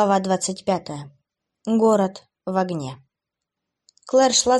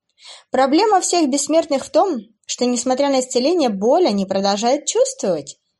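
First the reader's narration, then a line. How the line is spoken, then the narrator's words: Giggling female demon. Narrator (Russian): хихикнула демоница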